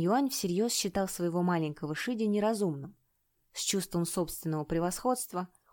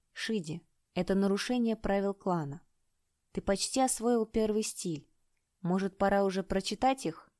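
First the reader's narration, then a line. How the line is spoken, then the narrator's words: Calm reply. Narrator (Russian): Чэнь-Тянь спокойно ответил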